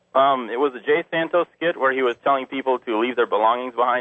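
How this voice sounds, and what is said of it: Slight German accent. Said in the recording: “You got kind of an accent... A little bit of a... Sound a little German.”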